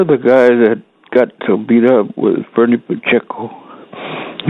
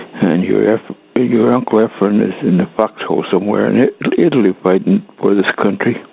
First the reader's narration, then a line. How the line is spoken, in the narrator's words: whisper in my ear